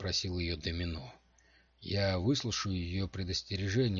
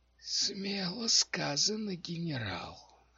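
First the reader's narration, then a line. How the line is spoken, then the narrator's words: Hoarse whisper from darkness. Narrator (Russian): раздался хриплый шепот из темноты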